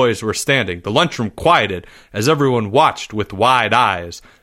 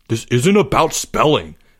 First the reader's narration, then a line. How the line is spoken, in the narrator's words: Albert snapped